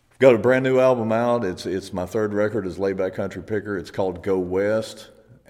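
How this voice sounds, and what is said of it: Rural country accent. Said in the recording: “people with a hick accent shouldn't be singing rock and roll”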